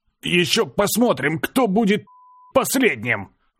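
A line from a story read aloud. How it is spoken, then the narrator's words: Strained, spitting blood. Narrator (Russian): Выдавил я, сплевывая ей в лицо кровавую слюну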